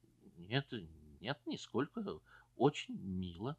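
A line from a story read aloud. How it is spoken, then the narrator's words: Embarrassed, guilty tone. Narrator (Russian): Он сконфузился и сказал таким виноватым тоном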